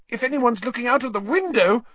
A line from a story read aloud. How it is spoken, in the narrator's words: Hermione squeaked